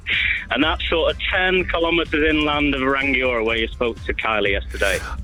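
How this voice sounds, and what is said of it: Non-New Zealand English accent. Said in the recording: “I'm listening to your accent, and it doesn't sound like you're originally from New Zealand.”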